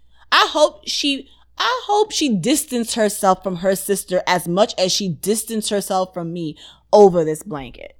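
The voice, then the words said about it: Audibly angry, irritated voice. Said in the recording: “Still pisses me off to this day, as you can clearly hear in my voice.”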